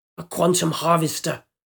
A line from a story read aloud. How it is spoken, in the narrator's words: man hissed